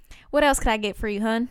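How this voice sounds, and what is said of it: Put-on country accent. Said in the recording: “Sometimes I take orders at work in my country accent.”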